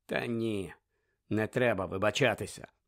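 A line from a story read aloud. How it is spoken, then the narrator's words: Muttering. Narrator (Ukrainian): пробурмотів Сіріус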